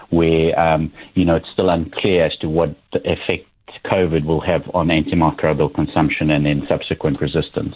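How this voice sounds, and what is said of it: South African accent. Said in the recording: “accent that, yes, it is. It is a South African accent.”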